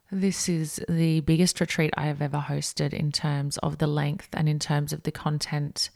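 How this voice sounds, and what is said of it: Croaky morning voice. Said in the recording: “my voice is a little bit croaky”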